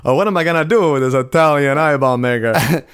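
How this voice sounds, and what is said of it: Put-on Italian accent. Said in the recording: “he kind of adopts an Italian accent”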